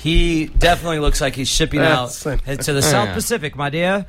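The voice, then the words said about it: Deliberately bad old-timey impression. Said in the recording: “It's a terrible impression.”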